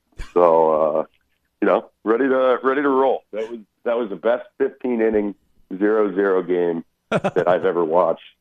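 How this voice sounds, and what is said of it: Scratchy hoarse voice. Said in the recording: “I apologize for my voice. It's probably a little scratchy. Did some celebrating yesterday”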